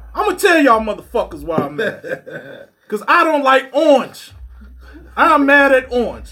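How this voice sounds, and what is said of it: Angry ranting podcaster voice. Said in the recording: “do my mad podcaster voice?”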